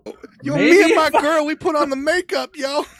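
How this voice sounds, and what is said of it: Mocking impression of another speaker. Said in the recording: “Why are you impersonating me”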